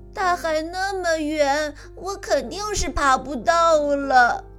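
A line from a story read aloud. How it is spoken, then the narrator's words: Crying. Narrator (Chinese): 安迪 他哭着说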